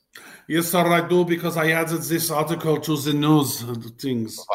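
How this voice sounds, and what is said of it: Put-on German accent. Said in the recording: “Why are you talking with a German accent now?”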